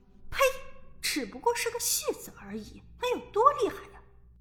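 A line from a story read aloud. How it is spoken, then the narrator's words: Cold sneering woman. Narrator (Chinese): 女人冷笑道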